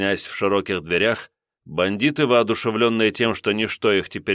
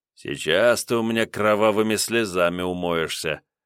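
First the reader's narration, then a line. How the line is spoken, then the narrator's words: Muttering, twisted mouth. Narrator (Russian): бормотал он перекосившимся ртом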